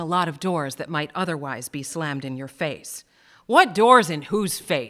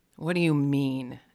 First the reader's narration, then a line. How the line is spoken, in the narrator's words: George growled